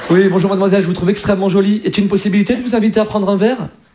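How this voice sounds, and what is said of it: Posh Parisian man flirting. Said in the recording (French): “un Parisien, quand il drague, c'est quand même classe”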